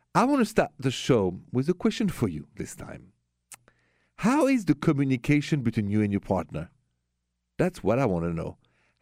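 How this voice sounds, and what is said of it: French accent. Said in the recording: “The accent is French. Straight from Paris.”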